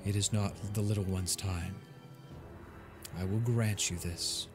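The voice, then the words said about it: Calm, soothing character voice. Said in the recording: “in a very calming voice”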